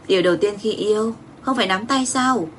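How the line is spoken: Smiling. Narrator (Vietnamese): Phó Trầm mỉm cười

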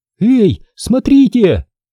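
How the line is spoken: Shouting. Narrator (Russian): Крикнула она милиционеру

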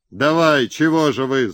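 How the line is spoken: Yelled. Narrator (Russian): заорал Харлов

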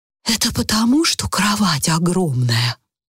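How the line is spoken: Whispered explanation. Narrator (Russian): шепотом пояснила мисс Энтуисл

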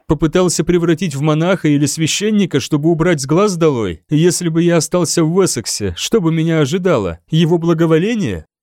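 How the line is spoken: Sad laugh. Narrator (Russian): Он также печально рассмеялся

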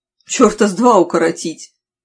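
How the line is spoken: Snapping. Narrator (Russian): огрызнулась я

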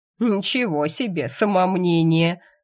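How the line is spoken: Woman's short laugh. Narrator (Russian): хохотнула заведующая хозяйственной частью больницы

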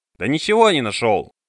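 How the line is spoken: Barked. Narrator (Russian): видя ее неуверенность, рявкнул

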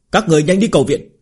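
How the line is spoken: Shout. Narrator (Vietnamese): một tên đệ tử la lên

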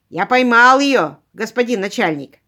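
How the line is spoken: Constable yelling. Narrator (Russian): заорал констебль

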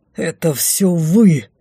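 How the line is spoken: Breathy exhale. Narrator (Russian): выдохнул Дефос

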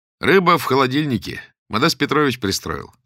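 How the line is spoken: Cheerful. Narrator (Russian): сказал он весело

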